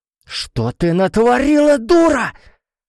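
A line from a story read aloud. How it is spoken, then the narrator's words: Terrible scream. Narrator (Russian): страшно завопила Эржебет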